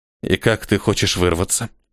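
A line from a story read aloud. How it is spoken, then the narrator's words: Trembling voice question. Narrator (Russian): спросил Ниэль дрожащим голосом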